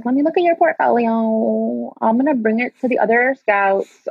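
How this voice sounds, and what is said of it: Put-on accent imitating another person. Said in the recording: “I'm giving her that accent”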